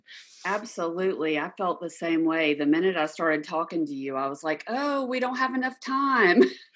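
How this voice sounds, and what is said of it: Noticeable foreign accent. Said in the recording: “your accent was just so darn cute”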